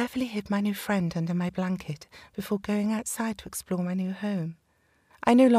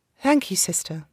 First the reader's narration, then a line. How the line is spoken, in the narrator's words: I said